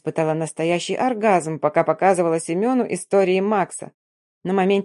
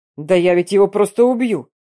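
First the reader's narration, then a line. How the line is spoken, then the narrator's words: Growling with heaving chest. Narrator (Russian): рычал он, пока грудь исходилась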